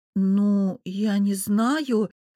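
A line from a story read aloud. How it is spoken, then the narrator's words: Confused drawl. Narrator (Russian): растерянно протянула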